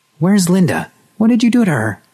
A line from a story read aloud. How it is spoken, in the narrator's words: someone else who shouted the brave words